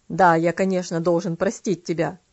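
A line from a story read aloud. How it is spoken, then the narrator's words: Cold, old man. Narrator (Russian): холодно ответил дедушка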